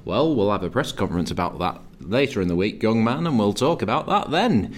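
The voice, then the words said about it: Weak Yorkshire accent impression of Mick McCarthy. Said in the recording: “your impression ... my Yorkshire, it's not very good”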